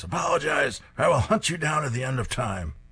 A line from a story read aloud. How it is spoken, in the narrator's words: Diona screams